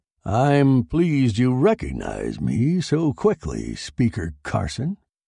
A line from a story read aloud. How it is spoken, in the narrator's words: said the stocky man in a slow, deep voice